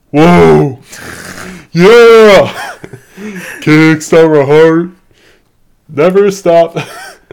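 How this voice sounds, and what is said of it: Loud singing in a deep voice. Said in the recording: “He sings, like, Kickstart My Heart in, like, a really deep voice? ... Sorry to all the headphone users that just blew out their audio right there.”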